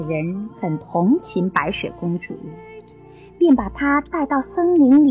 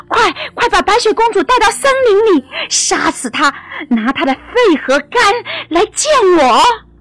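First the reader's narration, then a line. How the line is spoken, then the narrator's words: Fierce, vicious. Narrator (Chinese): 凶狠地说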